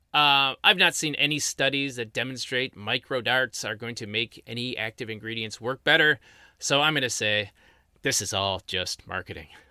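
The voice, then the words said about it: Strained, worn-out voice. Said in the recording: “My voice is kind of shot”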